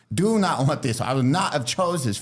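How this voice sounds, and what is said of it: Put-on Chinese accent. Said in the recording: “Australian or British lady, who got a Chinese accent”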